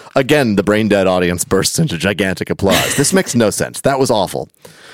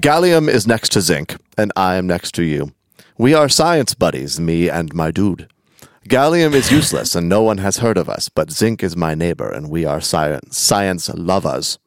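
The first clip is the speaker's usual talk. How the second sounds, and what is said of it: Put-on German accent. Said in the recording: “I don't know why they're German. That's just the accent.”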